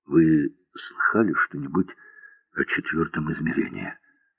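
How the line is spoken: Asked quietly. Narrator (Russian): тихо спросил

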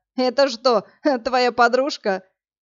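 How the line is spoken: Choking with laughter, young man. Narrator (Russian): Парень с параллельного потока спросил, давясь от хохота

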